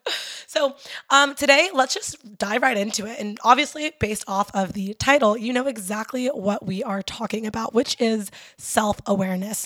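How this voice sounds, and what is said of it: Raspy, hoarse voice. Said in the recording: “excuse my raspy ass voice. I lost my voice over the weekend ... excuse me for having this crazy voice”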